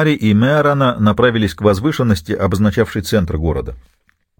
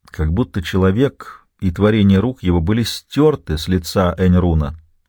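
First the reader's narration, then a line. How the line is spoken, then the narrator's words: Plain. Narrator (Russian): сказал он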